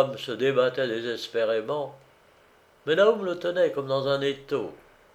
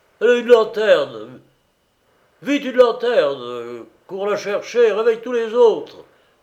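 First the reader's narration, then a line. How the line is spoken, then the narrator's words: Shouting. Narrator (French): lui cria Naoum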